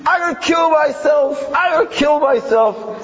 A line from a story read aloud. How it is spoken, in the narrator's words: probably drunk or maybe high, and he starts screaming